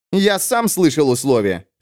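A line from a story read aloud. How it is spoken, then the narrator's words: Snapped. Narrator (Russian): огрызнулся маркиз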